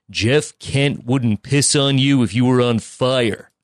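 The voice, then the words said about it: Imitates another person's voice. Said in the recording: “a good Penner impersonation ... That's strong.”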